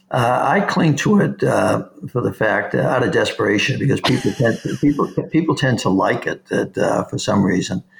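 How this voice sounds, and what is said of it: Boston accent. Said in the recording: “Why is that Boston accent so apparent?”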